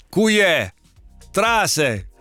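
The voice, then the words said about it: Attempted Calabrian dialect, struggling. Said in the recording (Italian): “io col dialetto calabrese faccio un po' fatica”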